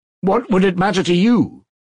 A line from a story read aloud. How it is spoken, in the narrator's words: he cried ... with a sort of despair